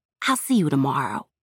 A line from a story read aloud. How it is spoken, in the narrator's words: she whispered